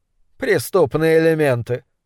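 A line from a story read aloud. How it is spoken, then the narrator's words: Dismissive snort. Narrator (Russian): фыркнул Окер с видом человека, сообщающего очевидное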